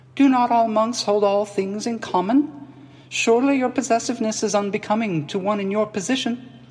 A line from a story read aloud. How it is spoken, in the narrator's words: he said, a steely hardness in his treble voice